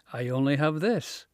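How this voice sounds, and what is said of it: Thick Scottish accent. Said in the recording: “In my thickest Scottish accent, bordering on incomprehension”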